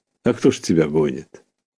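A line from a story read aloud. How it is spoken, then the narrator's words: Plain. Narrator (Russian): ответил дядя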